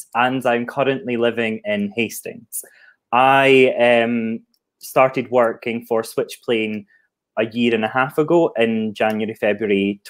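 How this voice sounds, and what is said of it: Scottish accent. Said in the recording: “I'm not from the Southeast, if you didn't tell that from my accent. I'm an export from Scotland”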